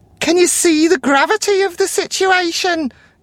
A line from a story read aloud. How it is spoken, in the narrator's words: screams